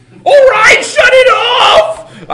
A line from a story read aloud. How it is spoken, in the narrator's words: yelped